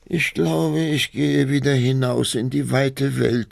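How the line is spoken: Sighing duckling. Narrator (German): seufzte das Entlein

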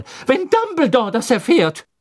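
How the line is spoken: Called out. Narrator (German): rief Professor McGonagall

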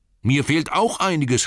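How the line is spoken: Called out. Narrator (German): rief Bilbo

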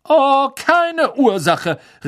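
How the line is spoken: Indignant call. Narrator (German): rief ihnen die fette Dame entrüstet nach

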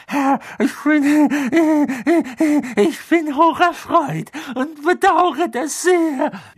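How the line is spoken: Man gasping. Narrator (German): keuchte der Mann auf dem Boden

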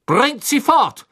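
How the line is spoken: Thundering shout. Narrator (German): donnerte Crouch den Dementoren entgegen

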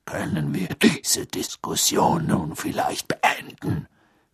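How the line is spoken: Growled. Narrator (German): knurrte Moody

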